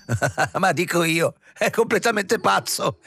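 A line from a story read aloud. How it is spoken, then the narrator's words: Triumphant laugh. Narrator (Italian): rise trionfante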